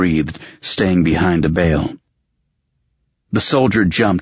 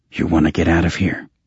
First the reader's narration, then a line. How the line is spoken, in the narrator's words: Another grunt